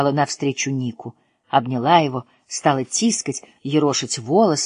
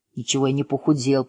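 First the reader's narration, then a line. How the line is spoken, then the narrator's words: Grumbling. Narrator (Russian): пробурчал Ник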